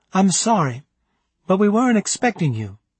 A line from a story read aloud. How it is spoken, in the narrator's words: she explained in a kind voice